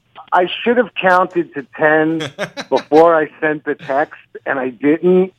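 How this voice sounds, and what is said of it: New York accent. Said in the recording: “I'm from New York. It comes with the accent.”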